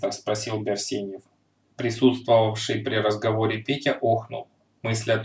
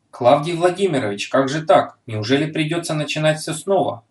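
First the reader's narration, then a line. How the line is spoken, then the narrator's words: Desperate exclamation. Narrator (Russian): с отчаянием воскликнул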